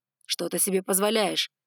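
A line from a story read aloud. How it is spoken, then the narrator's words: Barked. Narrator (Russian): рявкнул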